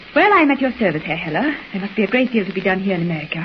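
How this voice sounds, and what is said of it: Fake foreign accent. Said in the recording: “Drop the phony accent.”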